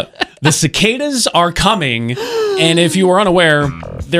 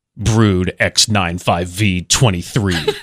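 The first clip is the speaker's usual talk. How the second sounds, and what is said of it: Dramatic movie trailer voice. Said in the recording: “I'm going to do my best movie trailer voice here.”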